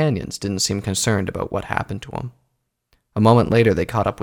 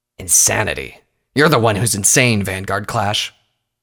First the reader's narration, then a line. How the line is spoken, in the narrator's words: Coldhoof spat